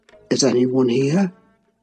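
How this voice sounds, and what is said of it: Half whisper. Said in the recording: “he said in a half whisper, plainly not expecting an answer”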